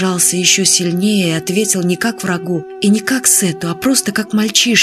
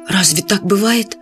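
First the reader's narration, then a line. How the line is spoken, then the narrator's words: Frightened question. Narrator (Russian): испуганно спросил Фадейк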